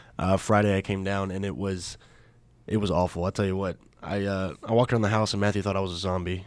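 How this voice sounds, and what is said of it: Sick, congested-sounding voice. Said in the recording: “I sound a little sick”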